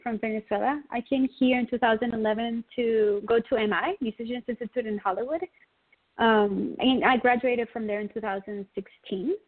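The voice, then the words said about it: Venezuelan-accented English. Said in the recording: “I love your accent. I've got to tell you that right off the top. I absolutely love your accent.”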